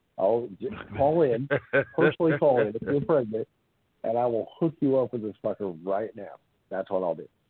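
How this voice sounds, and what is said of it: Nasal Boston accent. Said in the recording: “I have a sexy, nasally Boston accent”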